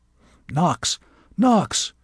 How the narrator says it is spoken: whispered Adderley

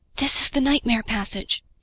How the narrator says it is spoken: he whispered to himself

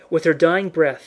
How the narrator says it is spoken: she gasped into it

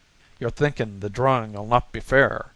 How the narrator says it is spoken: the latter sneered to O'Brien

